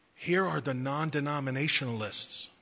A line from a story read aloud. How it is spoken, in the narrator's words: He quietly opened the door and whispered